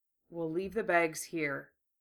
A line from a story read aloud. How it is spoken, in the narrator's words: Gara said quietly